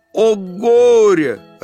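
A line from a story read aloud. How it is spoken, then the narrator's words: Yelling, fish. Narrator (Russian): рыбка заорала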